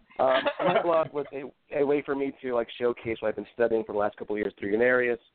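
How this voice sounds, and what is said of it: Sick, less clear voice. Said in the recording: “apologize for my voice. I don't sound as pretty as I did last time. I'm getting over the flu.”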